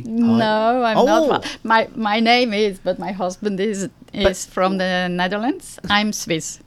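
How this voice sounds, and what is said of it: Slight Swiss accent. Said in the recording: “it's your accent ... beautiful accent ... I thought you were from Holland, just with that little bit of an accent ... you're Swiss”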